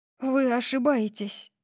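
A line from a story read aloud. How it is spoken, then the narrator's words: Breathed out. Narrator (Russian): выдохнула я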